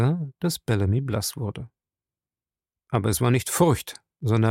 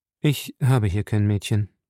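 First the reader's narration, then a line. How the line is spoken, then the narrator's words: Calm man. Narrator (German): sagte der Hausmeister ruhig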